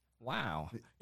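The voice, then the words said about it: Imitates another person's voice. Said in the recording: “This is my Owen Wilson impression”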